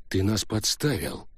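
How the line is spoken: Grim speech. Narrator (Russian): мрачно произнес Каннелли

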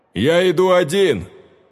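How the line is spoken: Loud furious menacing shout. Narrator (Russian): Громко, грозно и яростно, словно он в одиночку собрался захватить весь мир, крикнул в толпу Андрей

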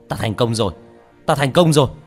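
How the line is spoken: Excited shout. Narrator (Vietnamese): Hắn hét lên hưng phấn

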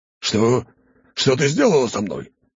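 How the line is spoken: Monstrous roar. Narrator (Russian): Взревело чудовище

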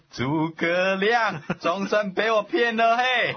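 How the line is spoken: Laughing loudly. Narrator (Chinese): 他大笑着说

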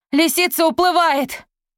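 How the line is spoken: Shouted. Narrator (Russian): крикнула Изольда

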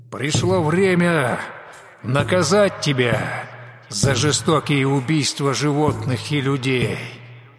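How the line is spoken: Fearless tiger's growl. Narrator (Russian): бесстрашно прорычал тигр Дивдан

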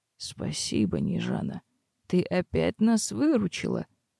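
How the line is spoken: Quiet, soft speech. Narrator (Russian): тихо выговорил маг

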